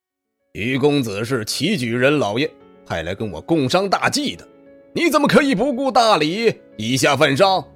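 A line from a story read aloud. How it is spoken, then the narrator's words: Loud scolding. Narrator (Chinese): 郑三发大声呵斥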